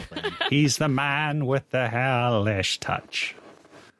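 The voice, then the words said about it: Imitates another person's voice. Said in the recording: “my Shirley Bassey impression”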